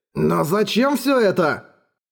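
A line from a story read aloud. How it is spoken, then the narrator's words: Exclaimed. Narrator (Russian): воскликнул Эрагон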